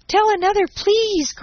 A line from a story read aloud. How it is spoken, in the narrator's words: cried Daisy